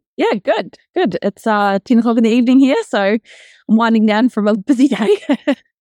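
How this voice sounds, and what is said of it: New Zealand accent. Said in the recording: “So you're in New Zealand, right? ... as we can hear from your accent”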